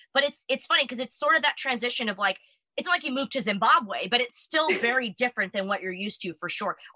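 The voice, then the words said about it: American accent. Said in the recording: “my accent is very, looked upon, like, what? You can tell immediately that I'm American.”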